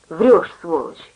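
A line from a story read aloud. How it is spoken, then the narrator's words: Through clenched teeth. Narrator (Russian): сказал он сквозь зубы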